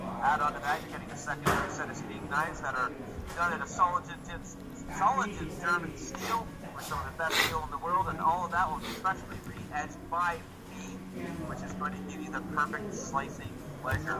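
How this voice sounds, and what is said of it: Polished radio announcer voice. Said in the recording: “that was a good radio voice.”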